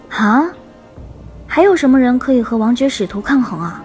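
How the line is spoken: Calm, flat. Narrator (Chinese): 天树幽花淡淡的说

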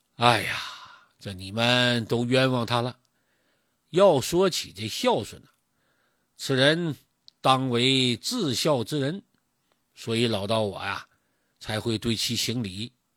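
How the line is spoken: Sighing old man. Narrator (Chinese): 老道听了，叹口气

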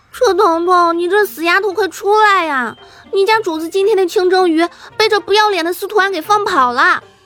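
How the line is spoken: Weak tearful shout. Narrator (Chinese): 带着弱弱哭腔的喊了出来

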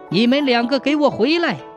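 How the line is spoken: Shouting while chasing. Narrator (Chinese): 边喊边撵

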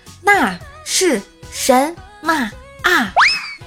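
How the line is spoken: Loud. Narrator (Chinese): 老师又很大声地说

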